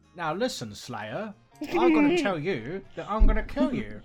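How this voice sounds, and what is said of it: Put-on British accent, vampire character. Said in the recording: “The terrible British accent.”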